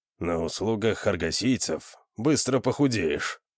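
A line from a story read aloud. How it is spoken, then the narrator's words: Grumbled. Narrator (Russian): проворчал Конан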